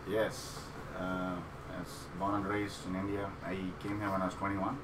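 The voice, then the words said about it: Indian accent. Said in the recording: “I am from India ... I still kept the accent”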